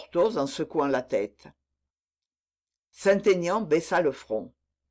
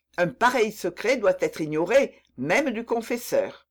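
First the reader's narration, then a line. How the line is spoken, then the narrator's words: Sharp exclamation. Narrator (French): s'écria vivement le comte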